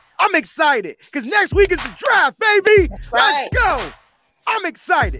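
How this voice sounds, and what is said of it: Excited yelling. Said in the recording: “Why am I yelling? ... I'm getting excited”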